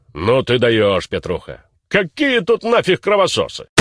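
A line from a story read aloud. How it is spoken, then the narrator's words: Deep bass voice. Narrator (Russian): Правый так басом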